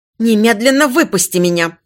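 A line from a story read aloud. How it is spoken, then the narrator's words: Almost growling. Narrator (Russian): почти прорычала принцесса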